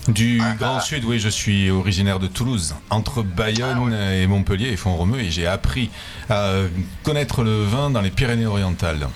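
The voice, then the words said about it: Southern French accent. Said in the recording (French): “Autre accent du sud également, peut-être pas de Montpellier”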